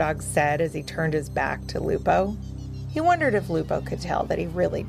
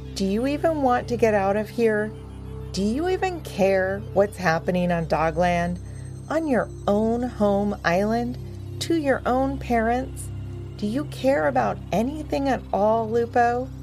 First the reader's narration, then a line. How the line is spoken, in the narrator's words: Power Dog sighed and said